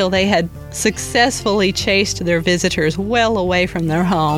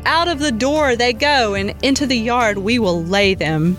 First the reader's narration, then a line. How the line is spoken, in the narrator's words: shouting